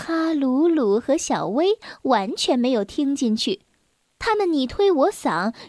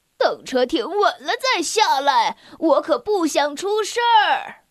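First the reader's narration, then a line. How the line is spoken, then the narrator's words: Shouting. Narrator (Chinese): 他大喊着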